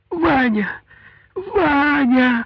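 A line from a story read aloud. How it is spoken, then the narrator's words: Heartrending scream. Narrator (Russian): С душераздирающим криком Даша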